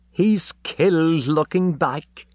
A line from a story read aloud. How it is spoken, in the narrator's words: she laughed